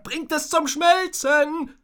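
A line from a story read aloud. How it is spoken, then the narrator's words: Called out. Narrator (German): rief ein anderer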